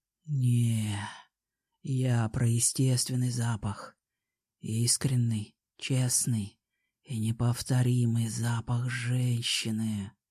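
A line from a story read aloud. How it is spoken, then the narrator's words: Quiet whisper, man. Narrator (Russian): так же тихо прошептал мужчина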